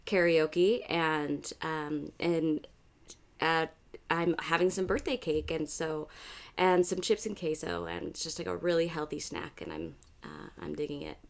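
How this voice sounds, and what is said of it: Slightly raspy, husky voice. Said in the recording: “apologies also if I have a little bit of a raspy voice today ... We all sound very sexy ... very uh, Lisa Kudrow on Friends ... it's her sexy voice.”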